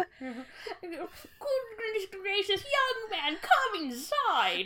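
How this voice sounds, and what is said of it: Terrible posh British accent impression. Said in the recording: “this jacked up fucking Queen Elizabeth II ... scream a terrible Queen Elizabeth II impression”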